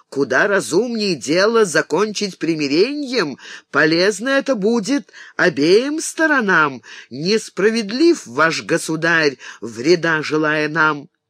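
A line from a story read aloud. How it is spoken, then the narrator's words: Sovereign's indignant exclamation. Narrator (Russian): Державный Гунтер снова воскликнул с возмущением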